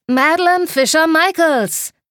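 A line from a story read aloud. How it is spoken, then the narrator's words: Call. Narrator (German): rief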